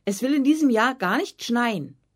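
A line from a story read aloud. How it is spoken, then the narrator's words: Angry shout. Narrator (German): rief Anna erzürnt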